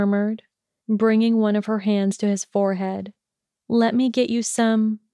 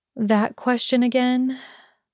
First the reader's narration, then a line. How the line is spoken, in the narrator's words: She sighed